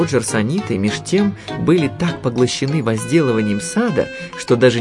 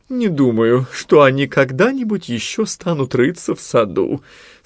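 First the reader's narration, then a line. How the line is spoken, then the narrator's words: Sleepy mumbling. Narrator (Russian): сонно бормотала Нани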